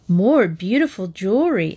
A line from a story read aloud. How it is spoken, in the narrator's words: exclaimed Jean